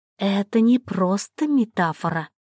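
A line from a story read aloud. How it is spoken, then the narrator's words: Whisper. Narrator (Russian): прошептала она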